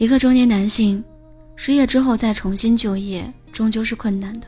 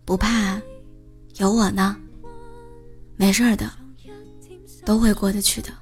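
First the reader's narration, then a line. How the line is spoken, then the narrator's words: Gentle, unreproachful. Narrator (Chinese): 董文杰没有一句责备，只是温柔的跟他说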